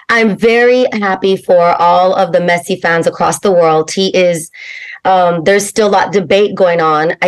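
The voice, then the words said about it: Hoarse, strained voice. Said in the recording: “my voice is gone from yesterday's eventful day of sports”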